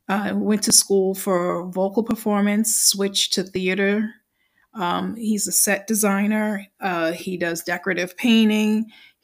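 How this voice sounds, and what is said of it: New York accent. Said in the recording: “That's my New York accent, so just bear with me.”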